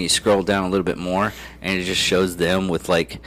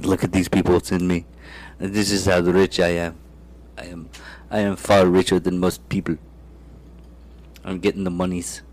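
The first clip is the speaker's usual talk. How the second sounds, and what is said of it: Put-on South African accent. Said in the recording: “That's my South African impression.”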